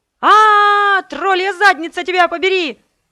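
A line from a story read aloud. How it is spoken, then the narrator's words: Yell. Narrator (Russian): заорала я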